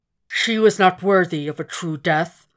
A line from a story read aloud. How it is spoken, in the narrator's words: the dragon slurred